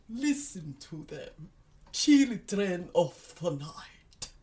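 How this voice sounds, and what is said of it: Dracula impression. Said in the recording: “my Dracula impression”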